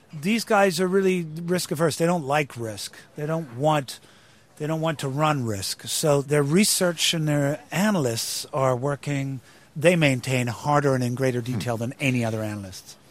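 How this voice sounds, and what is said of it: British speaker using American accent. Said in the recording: “they're going to hear you speaking this way and they're going to say, wait a minute, Damian Lewis is a Brit ... I speak in an American accent from the moment I get in the van in the morning ... my Brit accent ... to my American accent”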